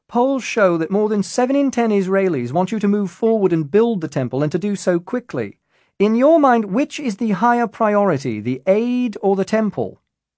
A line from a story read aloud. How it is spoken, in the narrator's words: shouted another reporter